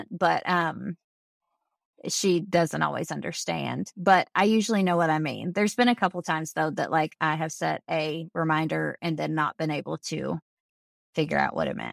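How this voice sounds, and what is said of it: Southern American accent. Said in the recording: “the way I pronounce Southern accent. Yeah, exactly. I don't know if it's the way I pronounce things or if it's the accent”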